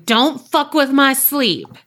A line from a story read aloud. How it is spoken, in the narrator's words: But I'm so close in yelling